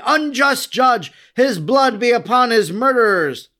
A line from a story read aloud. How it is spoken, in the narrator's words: They now cried